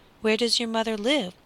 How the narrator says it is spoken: asked the squire, in a kindly tone, for he had already forgiven Little Boy Blue

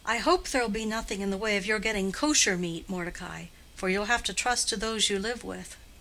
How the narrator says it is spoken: said the grandmother with a sigh of resignation

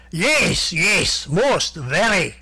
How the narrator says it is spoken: shouted Vladimir Brusiloff enthusiastically

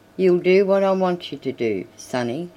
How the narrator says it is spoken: said Marshall

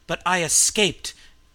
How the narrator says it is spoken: the scream rose triumphantly

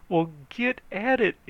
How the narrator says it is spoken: begged

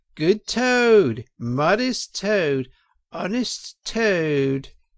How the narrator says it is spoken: shrieks of merriment

